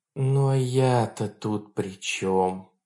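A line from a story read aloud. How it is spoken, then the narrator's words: Near moan. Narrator (Russian): почти простонала комиссар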